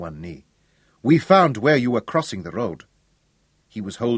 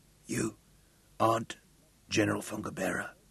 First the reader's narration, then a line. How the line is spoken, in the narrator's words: he whispered